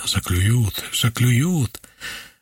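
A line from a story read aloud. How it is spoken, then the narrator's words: Relentless warning whisper. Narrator (Russian): Немолчным, подавляющим волю рефреном стоял в ушах предупреждающий шепот Фокина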